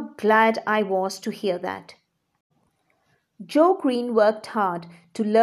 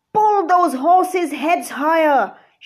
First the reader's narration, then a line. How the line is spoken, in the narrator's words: shouted